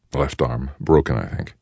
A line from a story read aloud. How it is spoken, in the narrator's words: he said